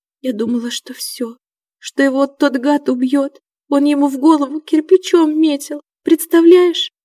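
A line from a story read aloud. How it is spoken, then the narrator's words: Sobbing. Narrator (Russian): всхлипнула Васька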